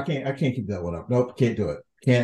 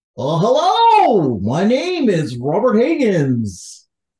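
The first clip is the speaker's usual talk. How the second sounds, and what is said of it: Goofy cartoonish voice, like Goofy. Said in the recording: “doing an increasingly goofier voice every week ... I was gonna try and do like a like a Bill Farmer goofy thing”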